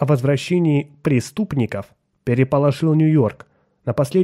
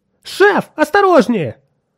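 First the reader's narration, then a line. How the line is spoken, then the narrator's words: Shout. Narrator (Russian): крикнул Отто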